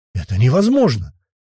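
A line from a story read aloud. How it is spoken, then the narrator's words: Exclaimed. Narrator (Russian): воскликнул он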